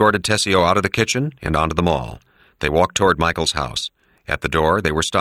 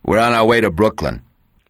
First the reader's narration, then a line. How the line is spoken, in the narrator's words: He said curtly